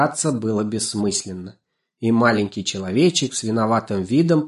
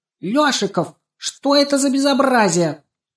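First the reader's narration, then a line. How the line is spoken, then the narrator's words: Indignant shout. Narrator (Russian): она возмущенно закричала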